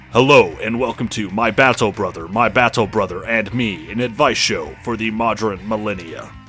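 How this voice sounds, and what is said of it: Gruff Space Marine character voice. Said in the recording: “in my Space Marine voice.”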